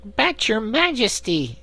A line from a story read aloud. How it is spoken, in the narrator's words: exclaimed Corporal Waddle in protest